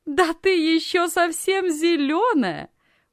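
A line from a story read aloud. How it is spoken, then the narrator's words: Loud laughter. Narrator (Russian): громко рассмеялась Анна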